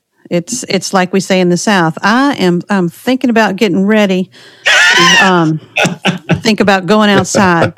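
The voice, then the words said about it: Slight Southern US accent. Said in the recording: “I still have a little tad of an accent. ... No, it's definitely there. It comes out.”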